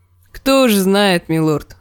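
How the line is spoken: Laughing woman. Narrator (Russian): засмеялась женщина

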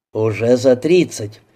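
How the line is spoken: Cheerful surprise. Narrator (Russian): весело удивился Тропынин

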